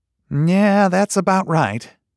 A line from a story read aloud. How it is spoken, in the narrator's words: Branson said and breathed heavy with regret